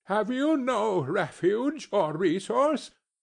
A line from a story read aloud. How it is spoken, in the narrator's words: cried Scrooge